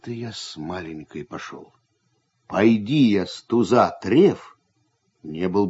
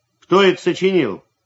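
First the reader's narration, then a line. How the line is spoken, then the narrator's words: Loud question. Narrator (Russian): спросил громко Прачкин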